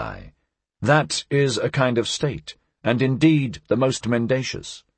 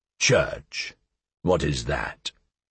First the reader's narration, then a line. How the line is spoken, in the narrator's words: did he interrupt me sullenly, and asked